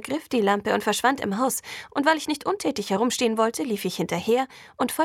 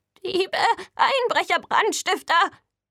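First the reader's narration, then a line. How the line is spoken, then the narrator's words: Agitated falsetto shout. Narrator (German): rief er mit aufgebrachter Fistelstimme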